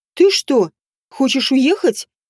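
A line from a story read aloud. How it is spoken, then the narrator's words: Exclamation. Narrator (Russian): воскликнула она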